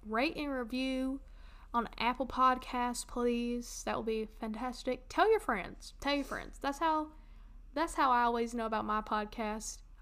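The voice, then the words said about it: Southern American accent. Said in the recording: “They might just like a good southern accent.”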